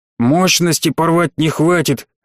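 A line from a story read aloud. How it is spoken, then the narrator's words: Hissed through clenched teeth. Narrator (Russian): сквозь плотно сжатые зубы прошипел Демьян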